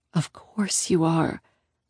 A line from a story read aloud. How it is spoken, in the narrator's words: I whisper to her